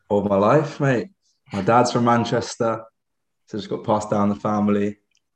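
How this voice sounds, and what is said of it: American accent. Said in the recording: “given my accent ... you're obviously from the States as well”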